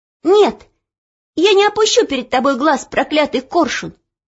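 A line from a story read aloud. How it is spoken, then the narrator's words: Sudden shout. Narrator (Russian): вдруг крикнула она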